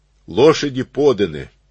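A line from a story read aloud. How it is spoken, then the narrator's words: Angry blurt. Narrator (Russian): Исаул сердито брякнул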